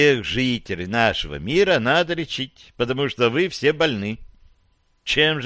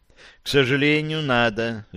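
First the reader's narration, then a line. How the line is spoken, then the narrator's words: Sighing. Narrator (Russian): вздохнул доктор Смит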